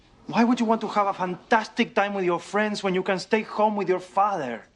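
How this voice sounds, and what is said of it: Thick, hard-to-understand accent. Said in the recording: “My accent is almost impenetrable.”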